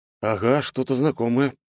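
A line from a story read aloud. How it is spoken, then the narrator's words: Grumbling in unison. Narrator (Russian): проворчали мы с братом одновременно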